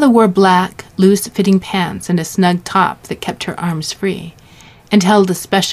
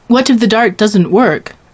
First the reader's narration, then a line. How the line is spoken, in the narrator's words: Rondeau said